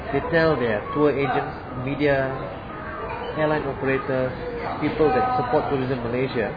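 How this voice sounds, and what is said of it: Malaysian accent. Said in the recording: “I'm Malaysian, I look different, my accent is different.”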